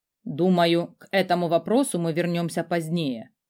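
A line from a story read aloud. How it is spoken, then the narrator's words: Cold. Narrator (Russian): холодно произнес Радомир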